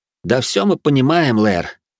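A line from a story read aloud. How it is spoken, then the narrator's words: Heavy sigh. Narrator (Russian): тяжело вздохнул пересмешник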